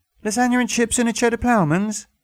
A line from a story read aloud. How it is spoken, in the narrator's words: said the barmaid brightly